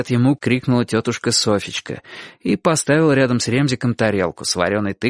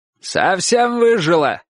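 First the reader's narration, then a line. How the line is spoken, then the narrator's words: Old man shouting. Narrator (Russian): крикнул дедушка в ответ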